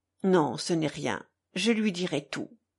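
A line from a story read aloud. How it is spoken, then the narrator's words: Murmured. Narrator (French): murmura Alyosha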